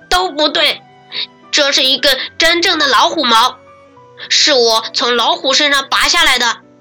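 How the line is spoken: Forceful loud shout. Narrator (Chinese): 他使劲大声一喊

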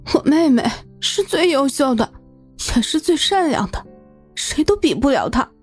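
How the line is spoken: Mumbling while crying. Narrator (Chinese): 抱头哭泣，嘴里还嘟囔着

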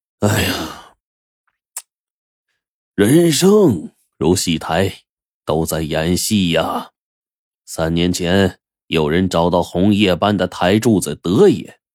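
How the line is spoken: Sighing. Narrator (Chinese): 吕长亭一声叹息呀

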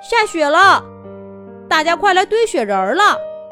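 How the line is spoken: Shouting at length. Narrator (Chinese): 他喊了半天

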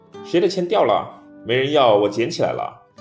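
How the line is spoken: Loud question. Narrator (Chinese): 大声问

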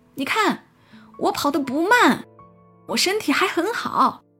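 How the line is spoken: Loud, breathless while running. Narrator (Chinese): 跑着跑着，他扭曲着姿势，突然回头大声说

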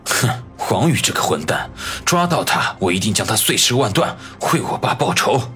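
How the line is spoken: Snorting, through gritted teeth. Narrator (Chinese): 李海龙哼了一声，咬牙切齿地说道

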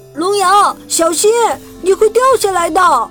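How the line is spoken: Shouting. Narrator (Chinese): 皮卡西喊道

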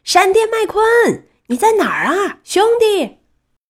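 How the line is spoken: Loud shout. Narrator (Chinese): 板牙大声喊着

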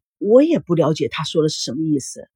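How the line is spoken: Sighing. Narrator (Chinese): 叶枫叹了口气

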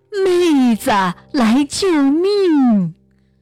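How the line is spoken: Urgent shouting. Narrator (Chinese): 他越喊得急

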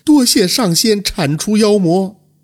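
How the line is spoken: Crying. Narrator (Chinese): 哭着说道

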